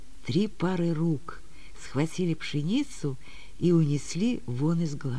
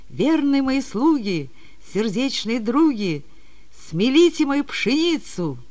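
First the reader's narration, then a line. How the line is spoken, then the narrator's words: Shouted. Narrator (Russian): крикнула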